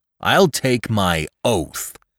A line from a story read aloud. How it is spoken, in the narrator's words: cried Lumsden angrily